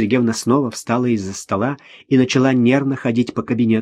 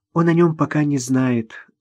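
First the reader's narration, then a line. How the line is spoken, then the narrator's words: Sigh. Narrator (Russian): вздохнула Ирина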